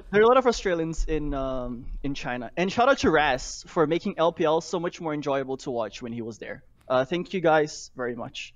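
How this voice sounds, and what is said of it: Slight Australian or New Zealand accent. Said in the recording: “you do have like a bit of an Australian or like New Zealand accent”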